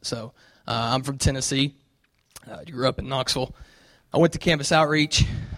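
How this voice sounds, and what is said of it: Southern American accent. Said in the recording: “you'll hear my southern accent”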